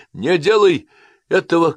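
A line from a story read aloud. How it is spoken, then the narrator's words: Shouted. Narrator (Russian): крикнул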